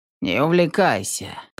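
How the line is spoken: Grumbling old woman. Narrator (Russian): проворчала бабка

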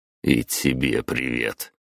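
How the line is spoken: Grumbling. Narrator (Russian): проворчал я

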